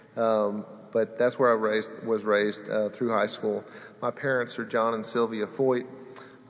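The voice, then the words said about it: Southern Alabama accent. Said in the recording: “I sound like an Alabama boy”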